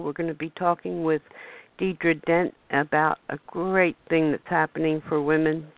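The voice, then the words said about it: Voice slightly deeper than usual. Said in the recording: “my voice is just a little bit deep this morning. Not sure what's going on with my throat”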